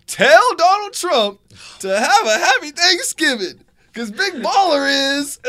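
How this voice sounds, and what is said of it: Impression of LaVar Ball. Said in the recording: “pretty good impression”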